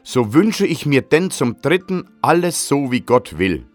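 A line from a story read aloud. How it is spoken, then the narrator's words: Loud shout. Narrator (German): rief laut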